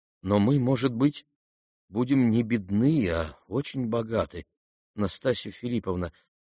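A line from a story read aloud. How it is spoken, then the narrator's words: Timid voice. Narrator (Russian): продолжал князь тем же робким голосом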